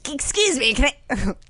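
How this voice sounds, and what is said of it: Imitates another person's voice. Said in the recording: “my impression of him just like the guy from the Weekend Update”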